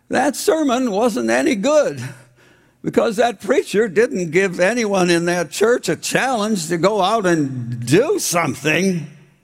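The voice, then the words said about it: High-pitched imitated voice. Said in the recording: “I'm going to use a high voice because Lincoln had a really high voice”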